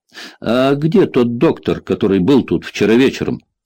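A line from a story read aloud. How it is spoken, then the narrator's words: Plain. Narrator (Russian): спросила Элис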